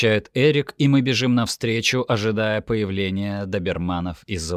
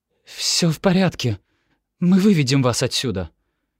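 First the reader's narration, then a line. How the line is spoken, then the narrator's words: Trembling whisper. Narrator (Russian): дрогнувшим голосом шепчет Ремеди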